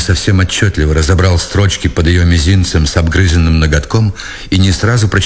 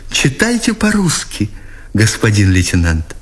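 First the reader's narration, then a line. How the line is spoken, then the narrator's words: Joyful yet guilty whisper. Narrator (Russian): воскликнула она, и обрадованной вместе виновато попросила его шепотом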